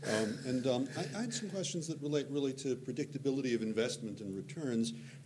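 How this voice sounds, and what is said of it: American accent. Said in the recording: “Don't be misled by the American accent.”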